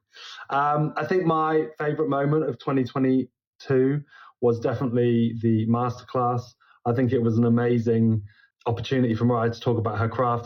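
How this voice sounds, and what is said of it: London accent. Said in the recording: “It's ... from London... I know how much you love my accent”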